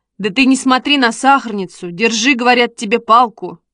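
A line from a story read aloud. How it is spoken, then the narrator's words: Sharp scolding shout. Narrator (Russian): прикрикнул Костя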